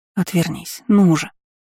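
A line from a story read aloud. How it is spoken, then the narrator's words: Near pleading. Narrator (Russian): почти взмолилась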